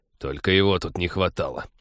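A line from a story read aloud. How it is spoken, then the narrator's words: Startled grumble. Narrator (Russian): проворчал Тед в первый миг, тоже вздрогнувший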